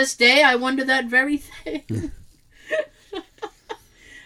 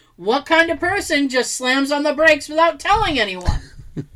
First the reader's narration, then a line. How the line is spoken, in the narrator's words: after one hard stop at a station, the guy just yells out